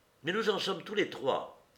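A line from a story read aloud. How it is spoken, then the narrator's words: Firm young woman. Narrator (French): reprit d'un ton ferme mademoiselle Monistrol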